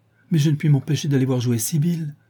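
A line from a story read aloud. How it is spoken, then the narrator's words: Exclaimed. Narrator (French): s'écria-t-il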